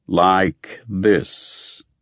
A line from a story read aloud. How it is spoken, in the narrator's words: the dim figure before me intoned